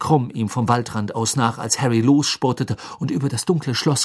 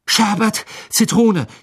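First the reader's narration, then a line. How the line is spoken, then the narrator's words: Breathless gasp. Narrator (German): japste er ihm entgegen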